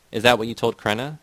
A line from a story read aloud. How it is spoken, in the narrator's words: Zednik asked